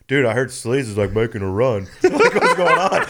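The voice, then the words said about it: Imitates another person's voice. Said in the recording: “Is that your DJ impression? ... Yeah, that was good. That was actually that's good.”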